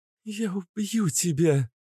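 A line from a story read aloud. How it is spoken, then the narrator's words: Silently mouthed. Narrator (Russian): Одними губами выдохнула Вика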